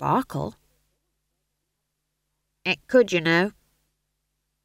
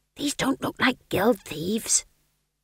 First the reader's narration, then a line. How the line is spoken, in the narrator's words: he hissed